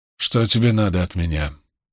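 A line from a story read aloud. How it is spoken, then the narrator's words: Even, cold voice. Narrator (Russian): голос его звучал ровно и холодно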